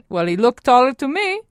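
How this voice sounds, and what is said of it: Imitated Italian accent. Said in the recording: “in her classic Italian accent”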